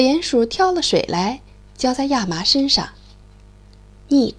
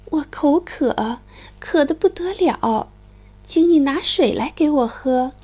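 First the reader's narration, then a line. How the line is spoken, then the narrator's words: Moaning, sighing. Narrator (Chinese): 亚麻唉声叹气地说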